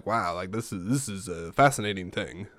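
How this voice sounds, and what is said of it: Imitates another person's voice. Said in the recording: “my shitty Rod Sterling impression. ... That's not good.”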